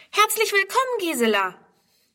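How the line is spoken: Called out. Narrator (German): ruft

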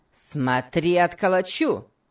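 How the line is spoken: Shout. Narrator (Russian): крикнул Сэмбо

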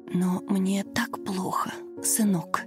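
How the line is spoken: Old woman's pained whisper. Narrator (Russian): шептала пожилая женщина, держась за сердце и корчась от боли

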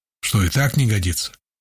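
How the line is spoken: Ambiguous grunt. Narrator (Russian): Непонятно, с одобрением или с иронией хмыкнул

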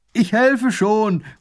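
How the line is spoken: Distant call. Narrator (German): ruft er von Weitem

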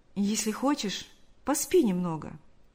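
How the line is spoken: Tender offer. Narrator (Russian): нежно взяв ее за руку, предложил Шамиль

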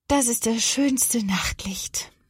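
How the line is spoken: Sleepy smiling murmur. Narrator (German): murmelt sie lächelnd, bevor ihr die Augen zufallen

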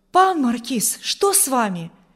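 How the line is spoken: Frightened exclamation. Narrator (Russian): воскликнул Урзин испуганно

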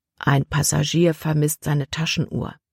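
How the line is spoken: Quiet voice. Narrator (German): sagte Kapitän Norstad Libby mit leiser Stimme

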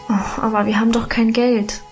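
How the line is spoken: Sighing. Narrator (German): seufzte ich

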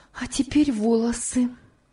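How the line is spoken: Exclaimed. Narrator (Russian): воскликнула она

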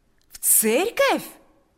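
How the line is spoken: Joyful exclamation. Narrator (Russian): воскликнул Павел с таким радостным выражением лица

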